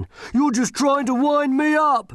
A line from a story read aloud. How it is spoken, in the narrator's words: yelled